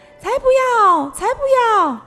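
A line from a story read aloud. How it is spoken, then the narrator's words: Shrieking chorus. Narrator (Chinese): 货车们尖叫着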